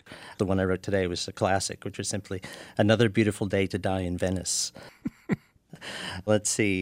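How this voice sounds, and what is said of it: Usual voice. Nothing is said of it.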